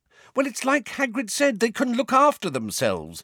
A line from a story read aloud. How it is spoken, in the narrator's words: said Hermione impatiently